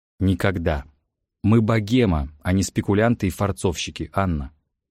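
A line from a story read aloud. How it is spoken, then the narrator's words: Stern scolding, poet. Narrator (Russian): строго отчитал ее поэт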